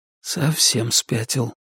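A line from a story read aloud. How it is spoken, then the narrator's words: Quiet mutter echoing through tunnel. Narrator (Russian): тихо пробормотал Ричард, но эхо тут же разнесло его слова по всему туннелю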